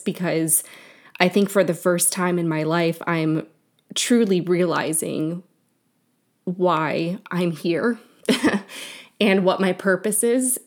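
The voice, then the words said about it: Emotional, moved voice. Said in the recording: “I'm getting emotional while I'm saying this”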